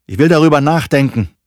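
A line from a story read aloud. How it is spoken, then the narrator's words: Calling after someone. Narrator (German): ruft er seinem Vater hinterher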